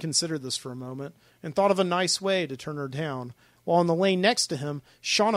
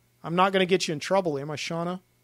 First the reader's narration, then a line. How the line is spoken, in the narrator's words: Jim said